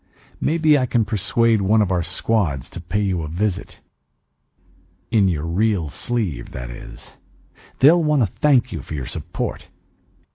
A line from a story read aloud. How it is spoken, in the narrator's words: I said evenly